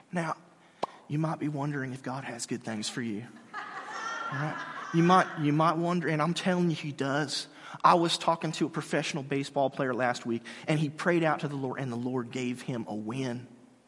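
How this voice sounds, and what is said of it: Soothing preacher voice impression. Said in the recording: “has a very, very soothing voice ... my Joel impression”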